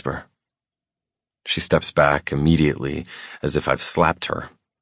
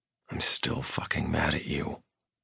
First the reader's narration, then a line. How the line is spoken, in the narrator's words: I whisper